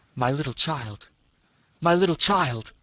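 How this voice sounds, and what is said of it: Strangled, choked crying voice. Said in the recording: “in a strangled voice”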